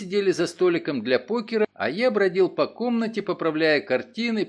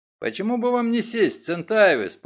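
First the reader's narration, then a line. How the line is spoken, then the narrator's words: Grumbling. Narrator (Russian): пробурчал Оллер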